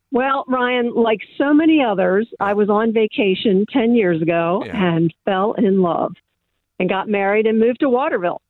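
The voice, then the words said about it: American Texan accent. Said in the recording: “I'm sensing an American accent ... I'm a Texan”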